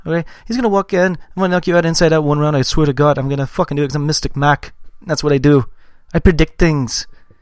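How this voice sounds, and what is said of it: Irish accent imitating another person. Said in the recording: “I used to do a really good impression of Conor McGregor, but it's more turned just Irish altogether ... That's pretty good ... it's more McGregor”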